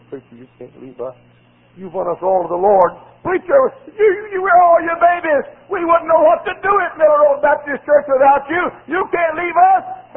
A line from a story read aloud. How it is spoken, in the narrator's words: cried and said